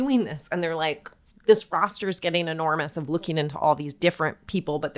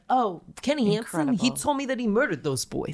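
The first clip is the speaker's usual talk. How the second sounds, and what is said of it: Put-on New York-style accent. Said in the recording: “That's a New York accent. I want full Chicago.”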